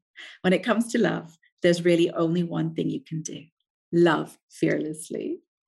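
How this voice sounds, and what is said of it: Speaks with a pleasing accent. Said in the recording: “that accent, it sounds so much better than my own voice.”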